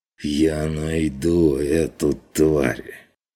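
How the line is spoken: Strained hiss. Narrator (Russian): шипением выдавил фон Вегерхоф, складывая слова через силу

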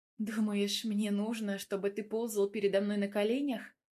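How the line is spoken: Muttered. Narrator (Russian): Пробормотала

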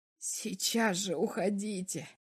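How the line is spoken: Laughing woman. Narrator (Russian): Врач засмеялась

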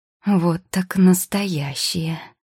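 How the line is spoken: Drawn-out, amazed. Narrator (Russian): протянула Маргарита

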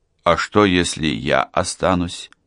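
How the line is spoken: Uncertain question. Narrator (Russian): спросил Мевлют неуверенно

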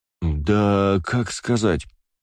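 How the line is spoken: Drawn-out, hesitant. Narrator (Russian): протянул сенсей

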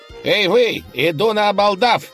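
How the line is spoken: Nasal lisping shout. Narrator (Russian): крикнул молодой человек, гнусаво шепеляя

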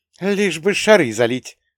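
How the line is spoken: Contemptuous snort. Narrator (Russian): презрительно фыркнула она

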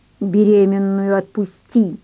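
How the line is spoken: Through clenched teeth. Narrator (Russian): процедил Аркадий

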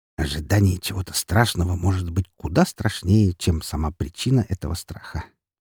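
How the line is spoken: Quiet muttering. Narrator (Russian): негромко пробормотал я

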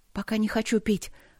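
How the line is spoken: Breathy exhale. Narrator (Russian): выдохнула

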